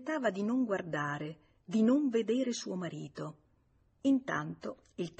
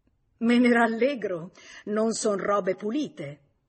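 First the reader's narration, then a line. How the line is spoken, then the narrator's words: Laughing mockingly. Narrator (Italian): Lei gli rise in faccia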